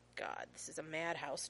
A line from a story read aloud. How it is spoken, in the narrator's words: John mutters